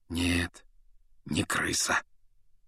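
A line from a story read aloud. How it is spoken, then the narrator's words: Quiet confirmation. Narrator (Russian): негромко подтвердил Люпин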